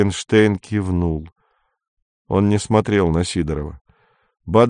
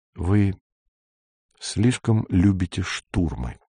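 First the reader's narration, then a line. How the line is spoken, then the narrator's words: Soft, gentle. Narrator (Russian): сказал Горбовский мягко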